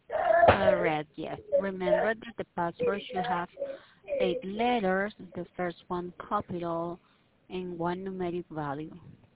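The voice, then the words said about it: Strong accent, hard to understand. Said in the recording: “I love your accent, but sometimes I really am having a hard time understanding what you're saying.”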